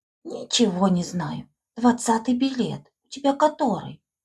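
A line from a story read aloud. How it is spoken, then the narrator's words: Whisper. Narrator (Russian): Услышала она ее шепот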